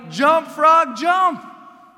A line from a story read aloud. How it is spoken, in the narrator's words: he yelled